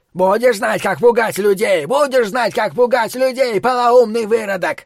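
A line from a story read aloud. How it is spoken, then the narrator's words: Hysterical shout. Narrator (Russian): истерично крикнул через плечо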